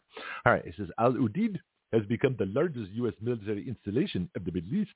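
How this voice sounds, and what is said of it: Put-on accent while reading. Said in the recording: “I kind of like this accent. I might do it more often.”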